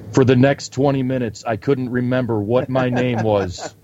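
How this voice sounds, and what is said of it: Imitates another person's voice. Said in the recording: “That was a good impersonation right there ... Zach Bagans, everyone. Zach Bagans.”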